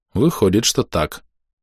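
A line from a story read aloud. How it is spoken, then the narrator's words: Calm confirmation. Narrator (Russian): спокойно подтвердил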